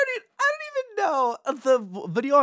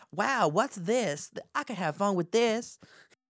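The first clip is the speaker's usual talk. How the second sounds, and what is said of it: Imitates another person's voice. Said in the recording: “your Britney Spears impression ... It's my Britney Spears impression”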